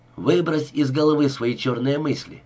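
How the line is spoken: Cheerful. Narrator (Russian): весело сказал он

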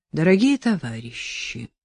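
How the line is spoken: Muffled, hollow. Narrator (Russian): глухо сказал Челышев

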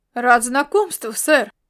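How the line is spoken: Exclamation. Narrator (Russian): воскликнул Ласло

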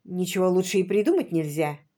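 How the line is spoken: Soft agreement. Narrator (Russian): мягко согласился он

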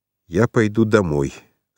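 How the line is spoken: Gloomy. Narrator (Russian): сказал он мрачно

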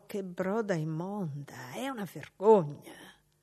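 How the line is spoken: Disgusted whisper. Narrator (Italian): una di loro, quella robusta, bisbigliò

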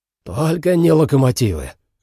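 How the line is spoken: Breathed out. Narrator (Russian): выдохнул комик

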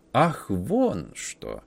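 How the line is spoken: Student drawling. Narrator (Russian): протянул студент

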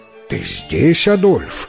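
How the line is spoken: Exclaimed. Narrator (Russian): воскликнул

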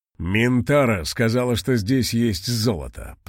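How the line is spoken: Growling pendant. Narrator (Russian): прорычал кулон

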